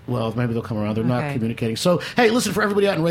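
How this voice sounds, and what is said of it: Usual voice. Nothing is said of it.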